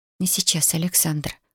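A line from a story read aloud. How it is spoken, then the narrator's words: Whisper. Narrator (Russian): прошептала она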